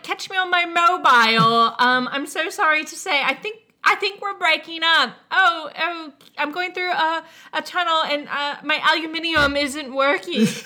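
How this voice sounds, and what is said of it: Inconsistent fake British accent. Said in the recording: “doing a fake British accent, and that sounds like this girl ... It wasn't as egregious ... She went through like seven accents ... it was all over the place”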